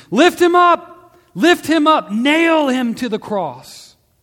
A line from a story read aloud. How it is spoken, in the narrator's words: they screamed